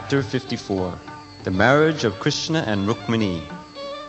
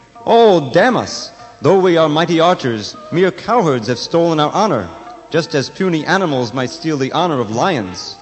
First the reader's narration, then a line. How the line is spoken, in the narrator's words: They exclaimed